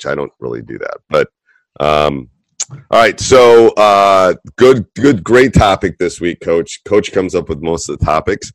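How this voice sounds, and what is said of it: Voice rough from a cold. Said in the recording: “you can tell by my voice that the cold, the non-stopping entire basketball season cold is still in my voice, or I'm yelling at my players too much”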